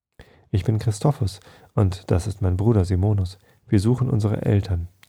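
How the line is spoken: Trembling voice. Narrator (German): erklärte mit zitternder Stimme

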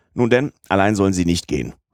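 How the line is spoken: Moved captain calling out. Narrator (German): rief der Kapitän, der sich der Rührung nicht erwehren konnte

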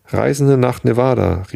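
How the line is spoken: Calling out. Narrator (German): rief Jefferson Hope

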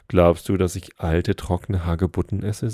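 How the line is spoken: Plain. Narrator (German): sagte er

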